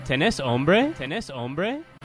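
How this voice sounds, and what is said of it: Clumsy beginner Spanish speaker voice. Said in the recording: “my horrible, like my at that time. Obviously, my Spanish is better now ... I'll do impersonation of myself 4 years ago”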